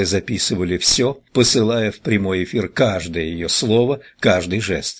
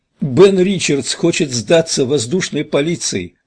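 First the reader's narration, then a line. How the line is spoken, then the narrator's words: Shouting. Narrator (Russian): прокричала Амелия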